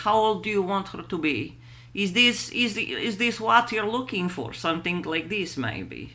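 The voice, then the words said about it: Old woman's Russian accent. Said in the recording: “let me find my Russian accent ... She's an old Russian grandma”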